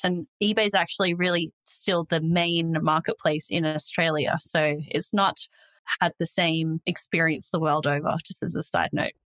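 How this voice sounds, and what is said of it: Australian accent. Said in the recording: “I'm Australian, if you couldn't already tell from my accent”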